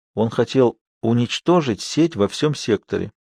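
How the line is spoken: Quiet. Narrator (Russian): тихо проговорила Эя

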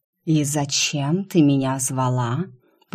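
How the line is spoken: Hissing. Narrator (Russian): прошипел он

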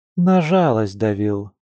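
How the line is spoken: Gloomy woman. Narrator (Russian): мрачно поинтересовалась женщина

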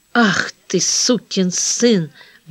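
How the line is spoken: Muttered. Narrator (Russian): бормочет она

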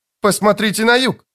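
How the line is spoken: Exclaimed. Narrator (Russian): воскликнул Лист

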